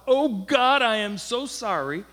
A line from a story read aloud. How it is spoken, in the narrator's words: Bursting into tears, he cried out